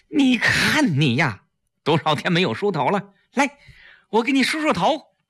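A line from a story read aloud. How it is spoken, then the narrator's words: Sad, loud. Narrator (Chinese): 季嫣然难过的把崔丽揽在自己的怀里，大声说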